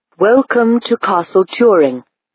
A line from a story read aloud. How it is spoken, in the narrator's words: said the lord in a metallic voice